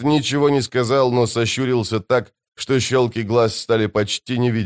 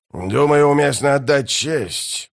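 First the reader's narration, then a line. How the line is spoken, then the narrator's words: Growling. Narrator (Russian): прорычал Бальд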